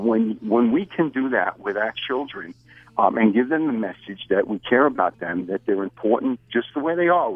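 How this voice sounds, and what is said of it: New York accent. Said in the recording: “if you're in the New York area and your accent implies you might be”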